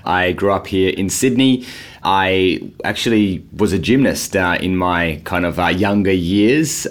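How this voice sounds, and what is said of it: Australian accent. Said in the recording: “as you can maybe start to hear from the accent, I'm from Australia”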